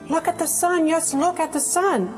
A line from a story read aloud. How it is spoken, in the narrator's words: cried Mrs